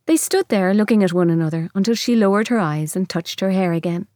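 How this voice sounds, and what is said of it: Musical Irish lilting accent. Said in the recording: “That Irish lilt, it's called a lilt because it is so musical, but I think ... has an extraordinarily musical voice on top of that accent.”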